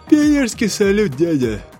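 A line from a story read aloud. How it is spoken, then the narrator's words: Sleepy. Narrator (Russian): сонно сказала Секунда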